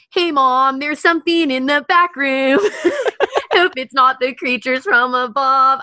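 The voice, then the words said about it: Sung impression of another person's voice. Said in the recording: “I love doing a Tom DeLonge impression... You're pretty good... You're good.”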